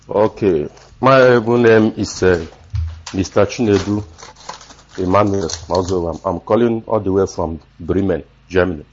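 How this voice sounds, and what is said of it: Hoarse, strained voice. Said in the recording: “Sorry that my voice, I lost my voice just because of the weather.”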